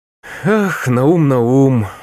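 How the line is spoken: Sigh. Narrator (Russian): вздохнул Моисей Моисеевич

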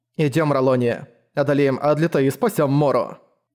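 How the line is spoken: Cold. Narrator (Russian): Холодно сказала Фрэмми Ролонии

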